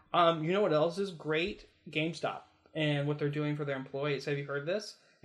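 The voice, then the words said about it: Sarcastic tone. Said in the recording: “can you hear the sarcasm in my voice?”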